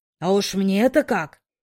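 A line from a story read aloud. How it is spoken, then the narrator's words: Muffled grumbling. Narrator (Russian): проворчал мне в макушку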